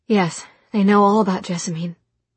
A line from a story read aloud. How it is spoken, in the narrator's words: she said hastily